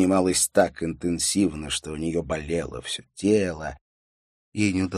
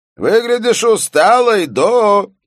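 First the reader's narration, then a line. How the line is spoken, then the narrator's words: Shouting boss. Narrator (Russian): прокричал начальник редакции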